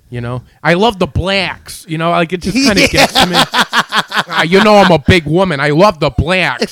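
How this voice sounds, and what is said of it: Imitates another person's voice. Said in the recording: “She's got that accent.”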